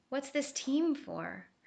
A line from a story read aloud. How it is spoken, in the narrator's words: Her voice quavered with deep concern